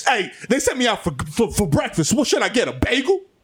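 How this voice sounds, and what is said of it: Loud voice. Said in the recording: “keep it down ... You need to lower your voice.”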